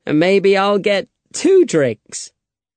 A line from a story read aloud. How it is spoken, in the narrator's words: laughed Alejandro